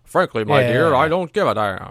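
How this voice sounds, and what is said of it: Old-movie transatlantic accent. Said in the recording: “transatlantic accent ... a completely fabricated accent. And it was kind of a mix between English, like British and American ... that weird way they talked back in movies back then”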